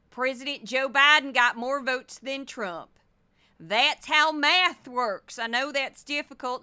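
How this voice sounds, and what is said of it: Put-on Missouri accent. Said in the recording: “I'm not quite doing her accent. I'm doing more of a Missouri accent.”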